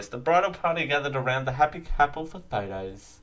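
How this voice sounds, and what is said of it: Irritating put-on reading voice. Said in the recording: “I won't do it in that irritating voice. ... I'm doing it in that voice. That voice is just slipping in.”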